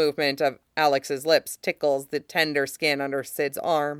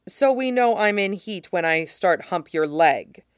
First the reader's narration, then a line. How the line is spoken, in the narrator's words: Alex says dryly